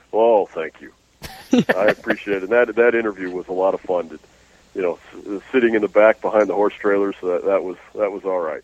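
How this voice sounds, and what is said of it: Deep radio voice. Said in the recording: “his deep radio voice... It's your deep radio voice”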